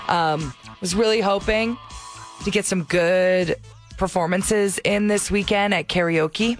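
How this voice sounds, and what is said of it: Hoarse, strained, nearly lost voice. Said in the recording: “I've lost my voice, so I'd like to apologize if it just sounds painful.”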